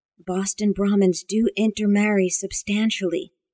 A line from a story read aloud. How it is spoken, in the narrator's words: Amanda rasped